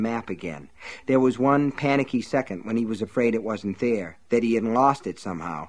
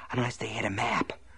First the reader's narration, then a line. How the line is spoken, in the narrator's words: Ace whispered